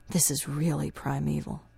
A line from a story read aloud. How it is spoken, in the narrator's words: Gary says softly